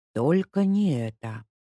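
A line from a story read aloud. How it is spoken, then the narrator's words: Whisper. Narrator (Russian): прошептала Леська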